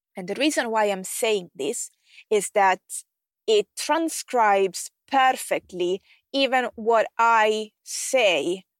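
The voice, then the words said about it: Somewhat unusual non-native accent. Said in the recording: “I have a bit of a weird accent”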